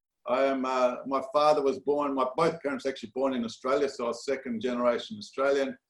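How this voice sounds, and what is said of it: Australian accent. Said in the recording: “your accent reveals that you're not initially from Los Angeles... My accent's definitely not. Some people say I'm from the south... it ends up being Australia, Perth, Australia.”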